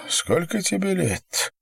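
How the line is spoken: Sobbing. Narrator (Russian): всхлипнула она

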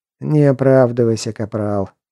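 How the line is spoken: Dismissive snort. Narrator (Russian): хмыкнул Морган

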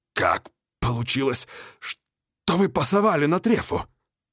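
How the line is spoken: Breathless. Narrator (Russian): выдохнул я

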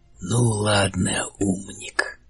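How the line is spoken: Purring voice. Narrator (Russian): произнес он мурлыкающим голосом

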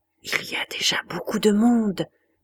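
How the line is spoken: Woman finally murmuring. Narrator (French): finit-elle par murmurer

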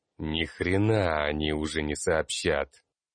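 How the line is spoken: Angry hiss, mage. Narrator (Russian): Зло прошипел маг

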